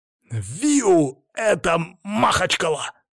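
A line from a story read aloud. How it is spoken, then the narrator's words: Shout. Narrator (Russian): выкрикнул он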